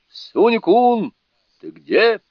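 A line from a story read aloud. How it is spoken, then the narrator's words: Shout. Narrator (Russian): Второй начальник крикнул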